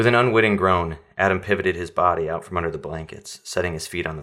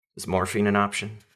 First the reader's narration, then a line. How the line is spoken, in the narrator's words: he asked